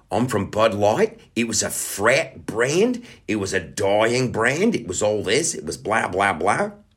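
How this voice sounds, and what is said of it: Put-on Australian accent. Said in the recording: “I'm gonna do the Australian accent”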